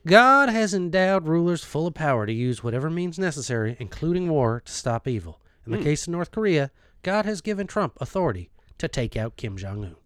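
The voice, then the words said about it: Southern preacher accent, Robert Jeffress. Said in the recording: “I don't know if he has that accent ... he absolutely has that accent. You were spot on with that.”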